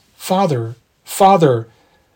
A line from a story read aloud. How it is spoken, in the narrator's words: piteous cries